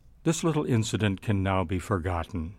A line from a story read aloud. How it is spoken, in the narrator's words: He says quietly